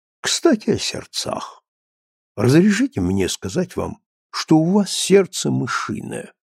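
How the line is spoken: Soft, gentle voice. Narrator (Russian): говорит мягко

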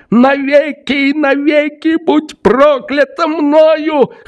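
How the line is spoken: Hoarse, gasping. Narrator (Russian): хрипел он, задыхаясь

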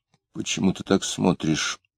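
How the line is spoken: Mumbled. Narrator (Russian): пробормотал он

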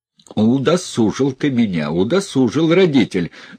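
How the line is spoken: Angry. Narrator (Russian): зло говорил он

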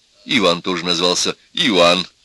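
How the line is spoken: Laughing. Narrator (Russian): Профессор засмеялся

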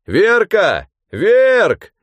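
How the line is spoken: Drunk man shouting. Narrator (Russian): кричал изрядно подвыпивший мужичок

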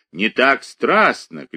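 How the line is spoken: Shouting, crying with laughter. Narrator (Russian): кричал Шелестов, плача от смеха

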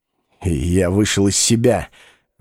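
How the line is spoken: Mumbling. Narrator (Russian): бормотал он

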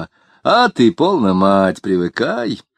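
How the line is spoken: Laughing, folksy Moscow accent. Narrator (Russian): кто-то засмеялся и сказал простонародным говорком, по-московски подчеркивая

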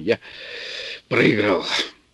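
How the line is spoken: Slightly hoarse voice. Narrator (Russian): Инженер сказал чуть охрипшим голосом

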